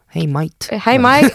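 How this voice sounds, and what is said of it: Put-on Australian accent. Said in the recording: “the person from Australia is like with an Australian accent”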